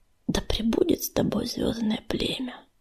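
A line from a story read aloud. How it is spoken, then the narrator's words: Whisper. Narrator (Russian): прошептал он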